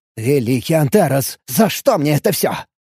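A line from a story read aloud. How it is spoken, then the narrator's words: Angry shift boss. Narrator (Russian): Зло, произнес начальник смены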